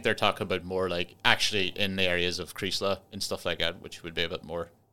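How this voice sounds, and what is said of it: Donegal Irish accent, part Northern Irish. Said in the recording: “To you, I sound Donegal, but to Donegal people, I sound half Donegal. I've got the half Northern Irish, because I'm from the border part.”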